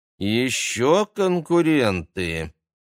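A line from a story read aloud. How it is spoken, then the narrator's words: Displeased young woman's drawl. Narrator (Russian): недовольно протянула девушка с длинными темными волосами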